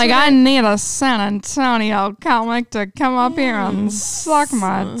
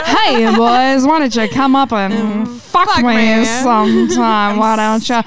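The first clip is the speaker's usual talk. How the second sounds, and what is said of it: Put-on transatlantic accent. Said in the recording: “I can do a good transatlantic accent.”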